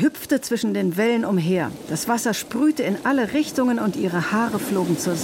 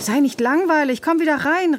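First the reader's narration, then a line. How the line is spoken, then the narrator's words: Girl calling out. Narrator (German): rief das Mädchen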